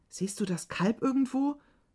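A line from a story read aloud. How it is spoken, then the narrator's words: Breathless panting. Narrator (German): keuchte Juma außer Atem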